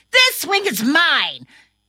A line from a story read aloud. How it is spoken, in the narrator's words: he got angry and pushed his friend Timmy off the swing and yelled